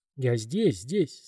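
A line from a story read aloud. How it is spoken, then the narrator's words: Plain. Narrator (Russian): сказала женщина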